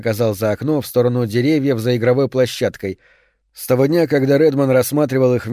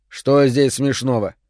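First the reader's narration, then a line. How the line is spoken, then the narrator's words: Stern question. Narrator (Russian): строго спросил он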